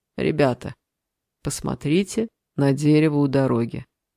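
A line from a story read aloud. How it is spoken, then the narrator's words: Quiet. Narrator (Russian): кто-то тихо сказал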